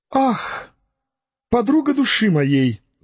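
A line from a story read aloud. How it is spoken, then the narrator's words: Shepherdess exclaiming. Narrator (Russian): воскликнула тогда вторая пастушка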